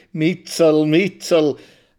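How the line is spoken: Laughing taunt. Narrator (German): lacht er mit seinem schiefen, hässlichen Mund unter der zerdrückten Nase

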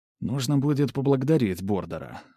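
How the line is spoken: Inner mutter. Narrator (Russian): мысленно пробормотал я

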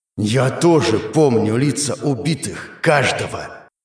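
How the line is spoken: Growled. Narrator (Russian): Прорычал он

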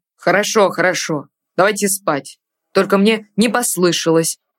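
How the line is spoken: Sudden irritated snap. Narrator (Russian): неожиданно раздраженно бросил Артур

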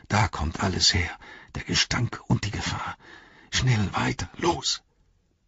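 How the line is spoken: Hoarse flat voice. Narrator (German): sagte er heiser und tonlos

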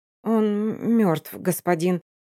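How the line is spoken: Stuttering girl. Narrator (Russian): заикаясь, сообщает девушка

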